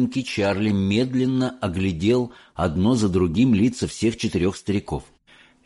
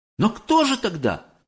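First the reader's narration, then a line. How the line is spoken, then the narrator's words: Exclamation. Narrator (Russian): воскликнул Чарли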